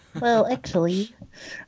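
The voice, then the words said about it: Nerdy voice impression. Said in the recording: “your Neil deGrasse Tyson voice is spot on. ... That's my general nerd voice. ... General nerd?”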